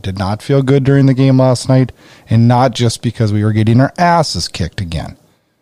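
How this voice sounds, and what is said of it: Sick, under-the-weather voice. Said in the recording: “I sound terrible. I'm a little under the weather today”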